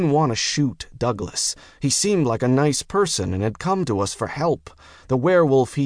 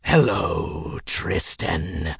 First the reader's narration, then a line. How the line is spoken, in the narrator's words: Werewolf Douglas rasped